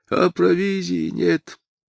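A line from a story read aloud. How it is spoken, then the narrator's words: Old woman sighing. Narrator (Russian): вздохнула старуха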